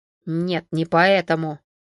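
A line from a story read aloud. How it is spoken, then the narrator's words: Displeased grunt. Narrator (Russian): недовольно буркнул Константин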